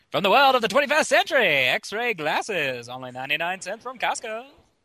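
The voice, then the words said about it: Fast, high-pitched 1920s announcer voice. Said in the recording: “1920s announcer voice ... you can do that really well ... up the tone of your voice and you just speak real fast”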